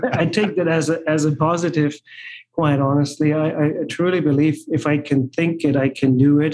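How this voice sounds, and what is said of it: German accent. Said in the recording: “obviously you hear the German accent”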